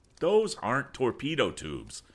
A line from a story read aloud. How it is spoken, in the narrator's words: cried Tom, unable to keep silent